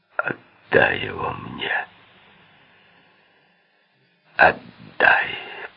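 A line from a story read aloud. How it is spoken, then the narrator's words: Hoarse whisper. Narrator (Russian): прошептал он хрипло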